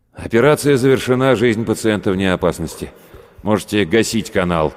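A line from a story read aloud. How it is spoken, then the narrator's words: Very loud. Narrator (Russian): как ему показалось, очень громко сказал Рудольф Терентьевич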